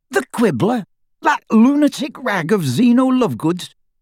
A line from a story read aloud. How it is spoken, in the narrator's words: he spluttered